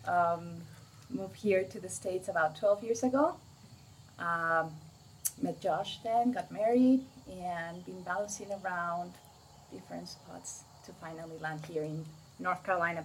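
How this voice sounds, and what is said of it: Mexican accent. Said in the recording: “the accent is not German, it's from Mexico”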